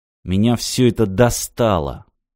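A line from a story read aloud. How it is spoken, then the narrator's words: Barely audible, through teeth. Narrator (Russian): едва слышно процедил сквозь зубы парень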